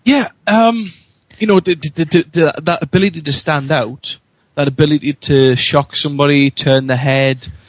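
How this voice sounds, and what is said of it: Newcastle (Geordie) English accent. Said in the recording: “I love your Newcastle accent ... It's a great accent. I love it.”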